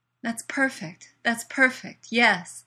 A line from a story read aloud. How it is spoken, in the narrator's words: Leslie pants as the sensation mounts